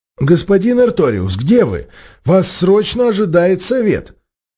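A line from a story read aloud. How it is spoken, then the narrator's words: Cracked, hoarse elderly voice. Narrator (Russian): Надтреснутый старческий голос управляющего директора звучал еще более сипло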